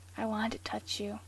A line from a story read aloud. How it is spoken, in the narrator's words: Castiel repeated in a whisper